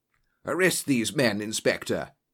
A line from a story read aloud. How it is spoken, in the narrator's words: gasped